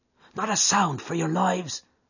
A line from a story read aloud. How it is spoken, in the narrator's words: McMurdo whispered